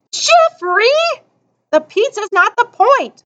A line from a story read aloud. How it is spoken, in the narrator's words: Amanda screeched